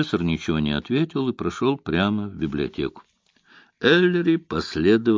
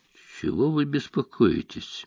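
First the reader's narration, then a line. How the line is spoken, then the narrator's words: Soft, gentle question. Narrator (Russian): мягко спросил он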